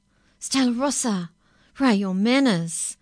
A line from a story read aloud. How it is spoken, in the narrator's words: her mother cried